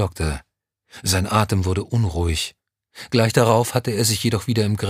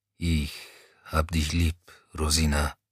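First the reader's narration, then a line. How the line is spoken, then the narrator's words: Low quiet grumble. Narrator (German): brummte er leise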